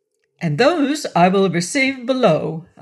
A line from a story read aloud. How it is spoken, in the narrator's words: I cried with affected gaiety